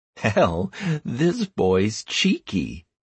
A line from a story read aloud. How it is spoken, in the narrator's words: chuckled Anastaria